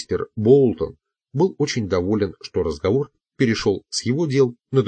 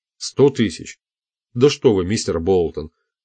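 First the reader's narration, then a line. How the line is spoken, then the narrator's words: Exclaimed. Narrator (Russian): воскликнул Пламли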